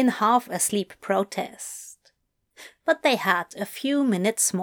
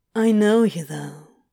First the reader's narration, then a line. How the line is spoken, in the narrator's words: Crowley breathed